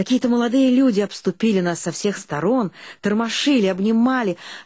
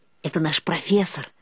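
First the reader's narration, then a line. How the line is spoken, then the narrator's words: Whisper. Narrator (Russian): шепнула Эльга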